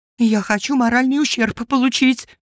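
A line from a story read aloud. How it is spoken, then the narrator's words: Shrill shriek, mother. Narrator (Russian): взвизгнула мамаша убиенного мажора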